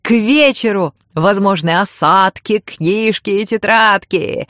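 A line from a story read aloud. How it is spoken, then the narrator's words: Laughing loudly. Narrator (Russian): хохотала Веро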